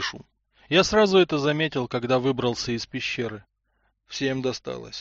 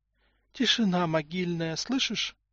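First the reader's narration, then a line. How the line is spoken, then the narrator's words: Said quietly. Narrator (Russian): тихо сказала Тамара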